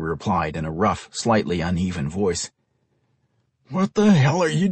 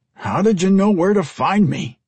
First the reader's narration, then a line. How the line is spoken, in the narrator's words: Henry asked, in a slightly stronger voice